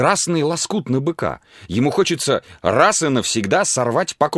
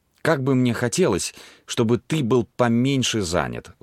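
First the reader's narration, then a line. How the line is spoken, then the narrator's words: Sighing. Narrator (Russian): вздохнула она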